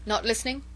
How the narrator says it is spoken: asked Chauvelin curtly

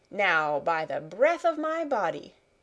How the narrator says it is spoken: cried the other

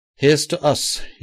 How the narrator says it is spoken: cried, with something like a civilized smile

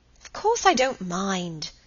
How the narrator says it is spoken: said Helen a little crossly

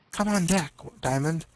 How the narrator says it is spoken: she whispered in his ear

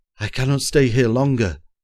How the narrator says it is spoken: groaned Simard, quaking, his nerves, like himself, in rags

